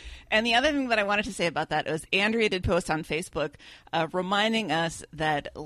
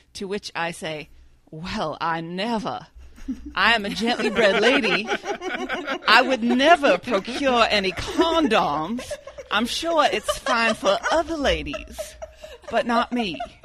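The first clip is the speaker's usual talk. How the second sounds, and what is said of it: Put-on accent. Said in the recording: “where did this accent come from? I love it.”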